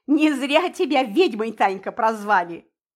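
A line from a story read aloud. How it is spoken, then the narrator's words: Loud laughter. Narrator (Russian): захохотал Мельников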